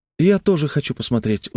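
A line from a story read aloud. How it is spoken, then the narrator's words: Pleading. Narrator (Russian): взмолился Тим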